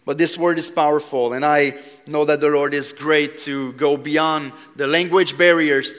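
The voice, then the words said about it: Quebec French accent in English. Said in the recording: “I'm from Quebec. I don't know if you noticed the accent a little bit.”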